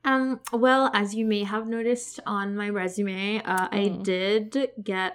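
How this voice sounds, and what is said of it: Put-on LA Valley girl accent. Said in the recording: “I'm not going to be talking like this. I don't know why I'm pulling like the LA, ... Valley girl right accent.”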